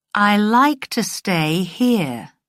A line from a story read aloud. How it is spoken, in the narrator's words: Diana said slowly